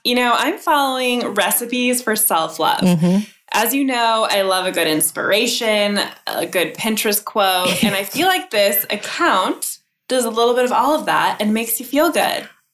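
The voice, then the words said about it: Stiff, robotic podcast voice. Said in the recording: “Like a... robot ... It's my podcast voice ... She has a podcast voice”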